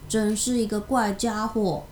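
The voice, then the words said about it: Quiet, murmured line. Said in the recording (Chinese): “雷蒂小声说”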